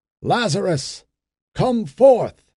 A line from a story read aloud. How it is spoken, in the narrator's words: For he spoke in a loud voice